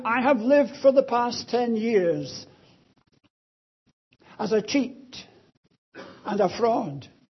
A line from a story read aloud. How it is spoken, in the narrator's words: the woman sobbed, saying